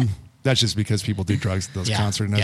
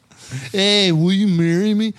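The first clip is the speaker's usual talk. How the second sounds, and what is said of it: Stoned-sounding put-on voice. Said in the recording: “I was doing a drug voice. ... drug voice. ... It sounds a little bit like your Pacino. A little bit.”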